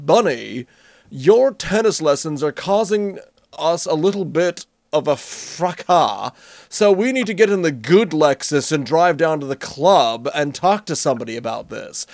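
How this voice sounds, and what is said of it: Pompous posh American accent. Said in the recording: “putting on a pompous accent for American ... my pompous American accent ... pompous voice ... you don't add on the British accent ... go posh and stay on this side of the Atlantic”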